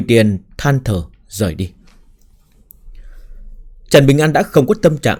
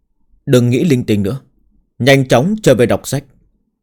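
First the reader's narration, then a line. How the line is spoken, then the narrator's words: Angry laughing. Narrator (Vietnamese): Trần Bình An cười tức giận nói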